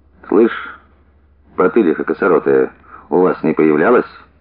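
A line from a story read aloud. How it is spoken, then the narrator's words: Quiet question. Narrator (Russian): Басаргин ... тихо спросил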